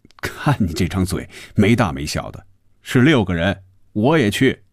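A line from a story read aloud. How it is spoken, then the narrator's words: Laughing. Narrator (Chinese): 红军笑着说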